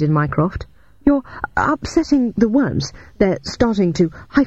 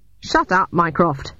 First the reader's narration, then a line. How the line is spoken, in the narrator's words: snapped Shit